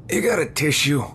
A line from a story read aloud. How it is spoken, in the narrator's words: He groaned